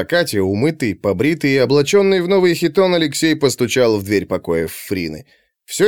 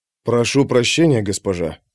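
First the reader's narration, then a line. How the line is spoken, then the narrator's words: Mutter. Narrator (Russian): пробормотал Алексей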